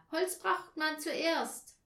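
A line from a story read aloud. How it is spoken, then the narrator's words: Shouted. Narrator (German): schrie Anja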